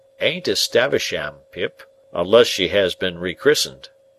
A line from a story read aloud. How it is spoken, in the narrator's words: said Joe gravely